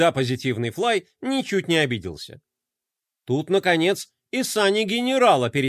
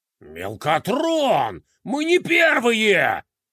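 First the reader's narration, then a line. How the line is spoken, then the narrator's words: Angry growl. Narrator (Russian): гневно прорычал Декроль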